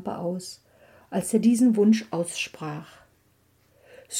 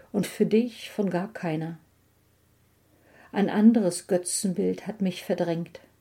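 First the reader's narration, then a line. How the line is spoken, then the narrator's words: Said gently. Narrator (German): sagte sie sanft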